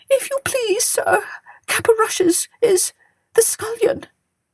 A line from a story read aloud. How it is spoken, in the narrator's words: whimpered the cook